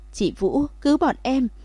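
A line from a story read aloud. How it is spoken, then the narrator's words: Crying, shouting. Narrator (Vietnamese): Đông Phương Thành Thành và Đông Phương Dĩnh khóc lóc la lên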